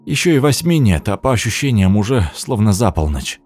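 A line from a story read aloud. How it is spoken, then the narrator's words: Tired. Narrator (Russian): сказал устало Артём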